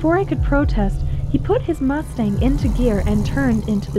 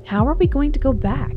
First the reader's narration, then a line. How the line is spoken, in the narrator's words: I said